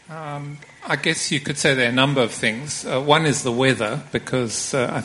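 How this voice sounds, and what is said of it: Zimbabwean accent. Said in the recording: “you have a funny accent. You come from Zimbabwe.”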